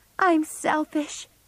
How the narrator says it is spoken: she cried

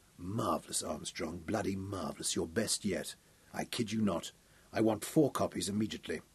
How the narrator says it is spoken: said in that husky, sexy voice

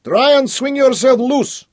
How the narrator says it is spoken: Boris shouted down at him

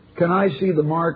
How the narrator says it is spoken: Ed asked

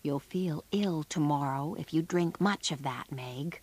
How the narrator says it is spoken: Laurie whispered to her

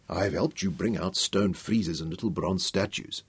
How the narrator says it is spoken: said softly

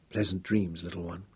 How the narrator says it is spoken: whispered tenderly

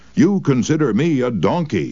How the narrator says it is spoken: he shouted

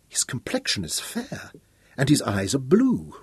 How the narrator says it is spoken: Royan exclaimed

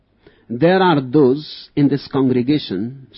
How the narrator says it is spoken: shouted the revivalist

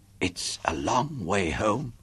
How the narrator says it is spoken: she whispered

